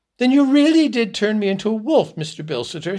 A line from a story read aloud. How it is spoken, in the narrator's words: exclaimed excitedly